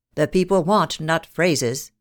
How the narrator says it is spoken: he said

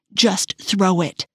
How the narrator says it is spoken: he said

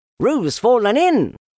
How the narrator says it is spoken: cried Rabbit

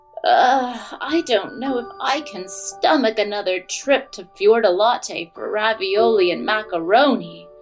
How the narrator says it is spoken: groaned Jack's big sister

